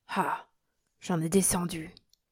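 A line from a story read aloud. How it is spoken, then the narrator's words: Half-voiced. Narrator (French): disait-il à mi-voix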